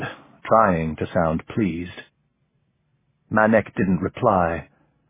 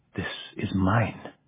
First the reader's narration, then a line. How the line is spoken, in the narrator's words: he said softly